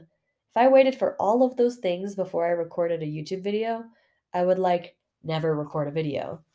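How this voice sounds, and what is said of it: Raspy voice. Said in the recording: “even if my voice is raspy... sorry about my raspy voice”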